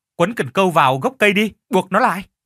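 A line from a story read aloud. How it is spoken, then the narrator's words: Group shouting. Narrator (Vietnamese): Họ la lên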